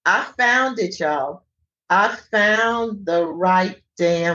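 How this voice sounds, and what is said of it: Usual voice. Nothing is said of it.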